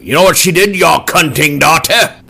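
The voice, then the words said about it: Uppity British character voice. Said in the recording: “I did not do a good impersonation ... It's a British kind of uppity voice.”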